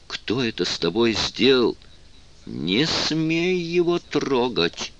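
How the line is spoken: Hissed. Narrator (Russian): прошипела Венди

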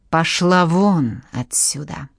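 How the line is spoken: Hissing. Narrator (Russian): прошипела Жанна

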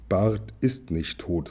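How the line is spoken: Plain. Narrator (German): sagte

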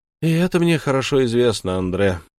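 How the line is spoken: Sighing. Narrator (Russian): вздохнул Бонапарт

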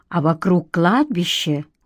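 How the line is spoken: Quiet. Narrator (Russian): уточнила Римма негромко

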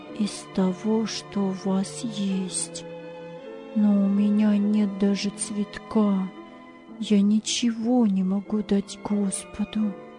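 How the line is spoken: Pensive whisper. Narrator (Russian): Ганс задумчиво шептал

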